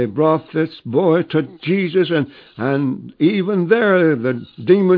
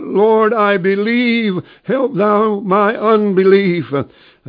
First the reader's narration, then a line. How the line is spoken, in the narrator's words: the man cried out